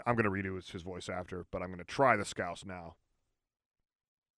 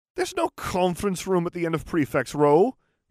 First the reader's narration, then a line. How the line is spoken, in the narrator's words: exclaimed